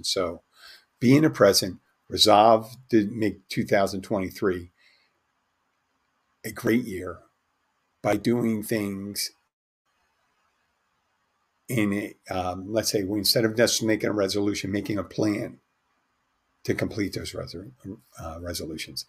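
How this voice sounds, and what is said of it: Strained, failing voice. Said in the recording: “sounds like I'm about to lose my voice.”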